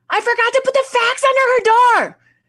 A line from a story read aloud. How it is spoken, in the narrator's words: starts yelling behind her